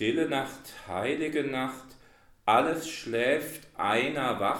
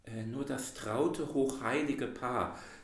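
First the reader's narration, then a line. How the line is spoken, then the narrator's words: Embarrassed. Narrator (German): sagte Frau Lemm betreten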